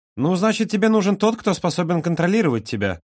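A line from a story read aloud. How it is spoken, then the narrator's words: Serious, then snide. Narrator (Russian): серьезно произнес Юра, но тут же ехидно улыбнулся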